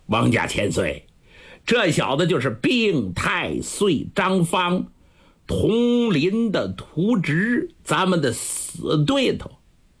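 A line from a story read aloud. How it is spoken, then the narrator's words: Laughing. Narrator (Chinese): 彦普笑着笑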